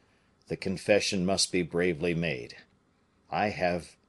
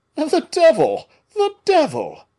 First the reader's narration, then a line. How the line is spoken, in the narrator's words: cried Porthos, much disappointed